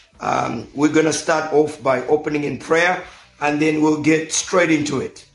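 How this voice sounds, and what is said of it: Hoarse, nearly lost voice. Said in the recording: “apologize for my voice. My voice is almost gone, but hopefully I'm still audible”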